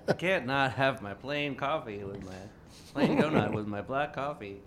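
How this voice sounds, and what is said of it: Put-on Southern-style accent. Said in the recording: “my weird Woburn Southern accent ... Is that the Woburn accent? ... how did you get this Southern accent”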